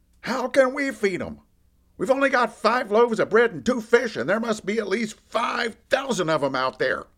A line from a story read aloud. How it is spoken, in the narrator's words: Andy blurts out